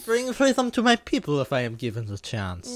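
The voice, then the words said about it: Put-on foreign accent, badly done. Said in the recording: “Sorry about the accent. ... Bad.”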